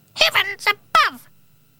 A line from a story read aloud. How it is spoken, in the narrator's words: she cried